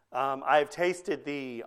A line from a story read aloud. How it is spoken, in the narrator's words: Augustine said